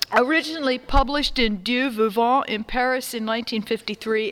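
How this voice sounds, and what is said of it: Stern preacher-teacher voice. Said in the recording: “this is my preacher voice, in my teacher voice, this is my don't make me come upstairs voice”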